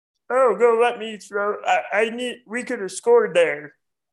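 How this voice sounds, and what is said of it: Imitates another person's voice. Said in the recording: “my impression of Frogger ... Was that pretty good? ... That was really good, dude.”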